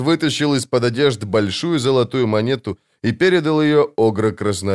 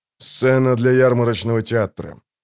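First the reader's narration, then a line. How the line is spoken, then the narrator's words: Said through gritted teeth. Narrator (Russian): процедил он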